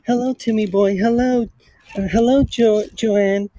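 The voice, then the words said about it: Imitates another person's voice. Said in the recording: “Michael Jackson impression ... It's not too bad ... That's pretty good”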